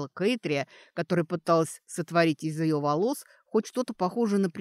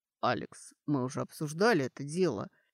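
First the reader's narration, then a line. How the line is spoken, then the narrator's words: Reminding. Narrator (Russian): напомнил Доран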